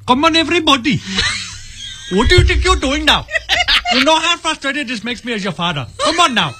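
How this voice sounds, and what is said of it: Put-on Indian accent. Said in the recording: “my default, too, is an Indian accent.”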